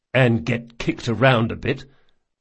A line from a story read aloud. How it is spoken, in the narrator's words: muttered Locke